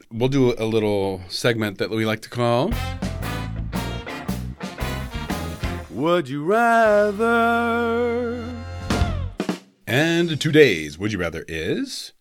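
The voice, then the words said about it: Deep, bassy radio announcer voice. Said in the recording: “You have such a good radio voice. ... I'm feeling especially bassy today.”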